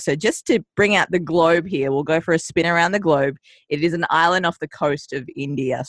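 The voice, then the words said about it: Australian accent. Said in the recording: “she sounds a little little different ... I migrated to Australia when I was two, hence the adorable accent that you're hearing on the airwaves”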